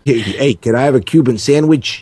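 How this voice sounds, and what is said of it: Put-on New York accent. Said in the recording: “And with New York accents.”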